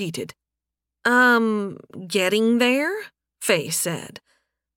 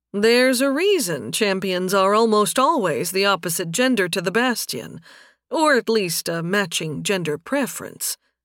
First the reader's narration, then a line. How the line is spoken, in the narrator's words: Nathan said dryly